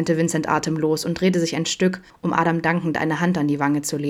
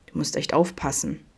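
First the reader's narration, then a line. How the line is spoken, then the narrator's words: Low murmur. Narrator (German): raunte Adam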